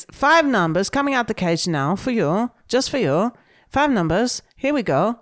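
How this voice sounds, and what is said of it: Put-on Greek accent. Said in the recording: “It's a Greek accent... I'm trying to do.”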